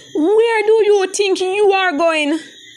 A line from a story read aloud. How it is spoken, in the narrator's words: Patsy shouted at Adriana